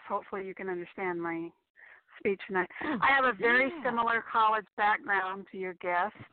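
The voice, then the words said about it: Slightly hoarse voice. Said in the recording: “I'm a little bit hoarse.”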